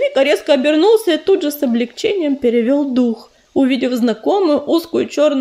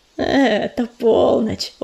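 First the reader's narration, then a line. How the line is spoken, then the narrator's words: Smiling, warm. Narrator (Russian): улыбнулся ураган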